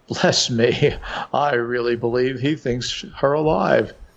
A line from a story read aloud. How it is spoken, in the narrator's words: he chuckled still louder and muttered